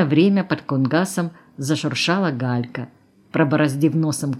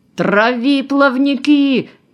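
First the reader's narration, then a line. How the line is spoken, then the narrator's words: Yell. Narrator (Russian): заорал Космачев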